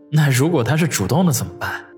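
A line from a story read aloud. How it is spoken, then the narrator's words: Dry laugh, inner muttering. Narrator (Chinese): 王宇咂巴了一下嘴，干笑两声，心中却在暗暗的嘀咕着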